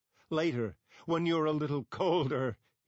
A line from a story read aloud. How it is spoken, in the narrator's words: he laughed